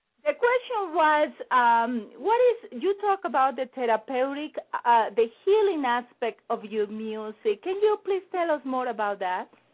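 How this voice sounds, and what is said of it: Colombian accent. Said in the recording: “my Colombian accent”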